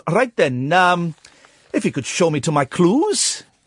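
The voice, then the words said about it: Put-on Welsh accent. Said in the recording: “he's doing a Welsh accent.”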